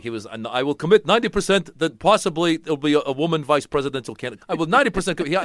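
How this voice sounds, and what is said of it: Bernie Sanders impression. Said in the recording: “that was a pretty good Bernie Sanders ... my impression of Bernie Sanders”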